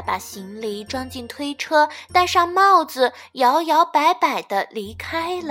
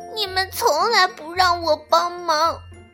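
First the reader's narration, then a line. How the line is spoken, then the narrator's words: Whimpering, crying. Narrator (Chinese): 鸭子哭哭啼啼地说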